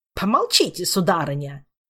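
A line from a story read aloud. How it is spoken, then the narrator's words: Snapping back. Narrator (Russian): огрызнулся он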